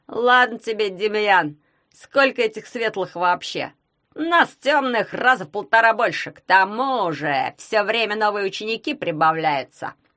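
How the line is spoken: Grumbling mutter. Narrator (Russian): пробурчал Семь Пеньдыр

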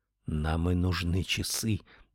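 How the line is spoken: Whisper. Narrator (Russian): прошептал он

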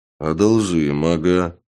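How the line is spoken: Peasant grumbling. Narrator (Russian): пробурчал крестьянин

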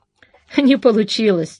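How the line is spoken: Laughing. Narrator (Russian): рассмеялся Зарубин

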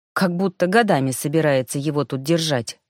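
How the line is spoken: Irritated inner thought. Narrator (Russian): раздраженно подумала Тиана

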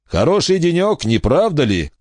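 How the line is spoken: Shout. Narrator (Russian): крикнул он

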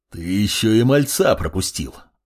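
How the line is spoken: Growled. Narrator (Russian): рыкнул предводитель

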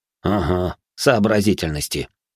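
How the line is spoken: Man snorting. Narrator (Russian): хмыкнул мастер

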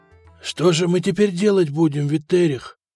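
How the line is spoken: Terrified whimper. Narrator (Russian): проскулил майордом Флавиан, с ужасом

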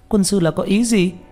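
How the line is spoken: Discontented yell. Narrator (Vietnamese): Tranh Tử gào lên, nhưng cũng chỉ là bất mãn

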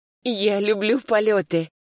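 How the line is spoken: Breathy exhale. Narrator (Russian): выдохнула

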